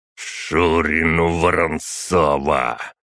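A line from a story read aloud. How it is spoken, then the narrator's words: Angry growl. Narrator (Russian): гневно прорычал граф Рязанов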